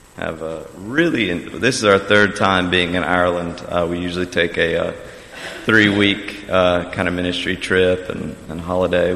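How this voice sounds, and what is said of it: North Carolina accent. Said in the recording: “Can you guess where I'm from by my accent? ... Close. Yeah, North Carolina.”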